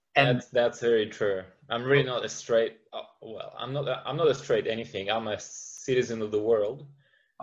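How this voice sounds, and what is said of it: Slight non-Australian accent. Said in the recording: “You have a little accent that tells me that you're not straight Australian”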